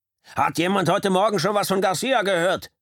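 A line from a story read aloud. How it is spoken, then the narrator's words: Shouted across the room. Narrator (German): schrie er durch den Raum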